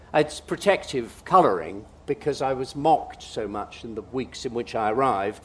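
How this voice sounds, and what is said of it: Posh English public school accent. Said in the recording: “I was sent to a public school that I learnt the accent that I now speak in”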